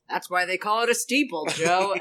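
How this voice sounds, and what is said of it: Impression of Lowell's cadence. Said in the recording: “That was a very good Lowell impression. ... you had his cadence down to a T there.”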